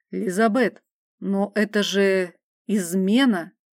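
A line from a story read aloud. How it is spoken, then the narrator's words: Hushed, fearful of being overheard. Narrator (Russian): Тихо, словно опасаясь, что нас услышит, произнес Мадис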